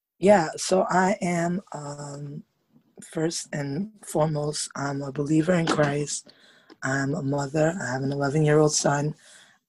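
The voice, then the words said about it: Raspy voice. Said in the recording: “Excuse my raspy voice.”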